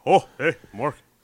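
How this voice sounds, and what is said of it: Imitates another person's voice. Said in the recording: “That's my Mork. That's my Robin Williams impression.”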